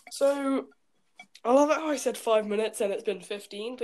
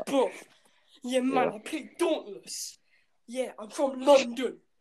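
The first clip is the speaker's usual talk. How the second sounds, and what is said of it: Put-on London accent. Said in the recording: “accent, bruv. That's how I've heard every London person talk”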